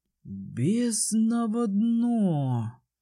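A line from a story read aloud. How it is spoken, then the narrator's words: Frowning exhale. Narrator (Russian): выдохнул, нахмурившись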